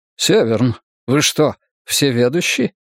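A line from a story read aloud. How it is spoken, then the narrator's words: Laughing. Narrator (Russian): Я не мог не рассмеяться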